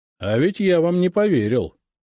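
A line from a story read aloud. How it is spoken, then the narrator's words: Plain. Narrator (Russian): сказал он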